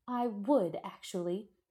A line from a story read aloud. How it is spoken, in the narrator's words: she shrieked back